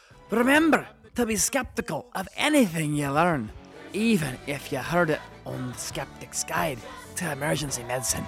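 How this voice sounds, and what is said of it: Bad put-on Scottish accent. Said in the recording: “can you do a bad Scottish accent in honor of Dr. Alexander Hamilton?”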